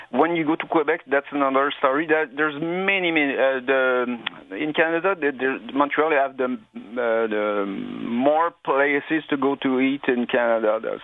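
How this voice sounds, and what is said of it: Speaks with a noticeable accent. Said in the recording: “I love that accent. I thought that was nice.”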